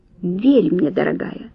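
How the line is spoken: Ingratiating murmur. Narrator (Russian): вкрадчиво пробормотал он

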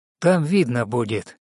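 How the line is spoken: Calm, confident reply. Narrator (Russian): спокойно и уверенно отвечал Ефремов

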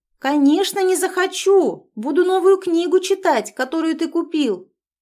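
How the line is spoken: Heavy sigh, then shout. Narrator (Russian): тяжело вздохнув, она крикнула

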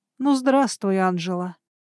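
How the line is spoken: Menacing breathy sneer. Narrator (Russian): Скривив рот в зловещей ухмылке, выдохнул мне в лицо мастер Об

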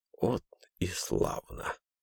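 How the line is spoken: Whispering. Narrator (Russian): прошептал Эрмуальдыч

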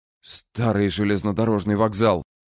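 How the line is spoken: Old raven exhaling. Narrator (Russian): выдохнул старший ворон

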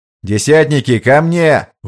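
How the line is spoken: Shouted command. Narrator (Russian): выкрикнул сержант

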